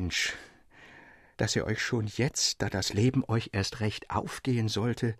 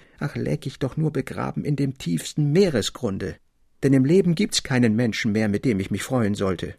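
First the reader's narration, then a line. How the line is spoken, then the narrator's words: Gloomy cry over noise. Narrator (German): rief endlich, als der Jubel in der Schenke recht laut und toll wurde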